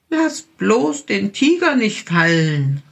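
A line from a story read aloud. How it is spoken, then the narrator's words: Little bear calling. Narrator (German): rief der kleine Bär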